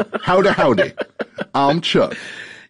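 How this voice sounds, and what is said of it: Mocking Southern drawl impression. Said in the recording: “your lovely Southern drawl ... That's an impression. ... You put two syllables in Chuck every time you say it.”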